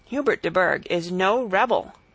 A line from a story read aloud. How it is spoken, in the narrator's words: said the bishop